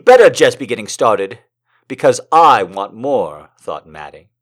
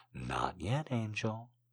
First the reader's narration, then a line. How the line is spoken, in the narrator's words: murmurs